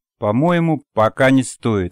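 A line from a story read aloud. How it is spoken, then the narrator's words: Plain reply. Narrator (Russian): ответила Надя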